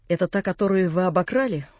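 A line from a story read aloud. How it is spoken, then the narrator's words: Rude, unrestrained question. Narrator (Russian): грубо спросил я, не желая более сдерживаться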